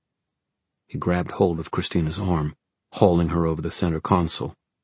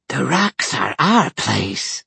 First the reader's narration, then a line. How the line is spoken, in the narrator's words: hissed at her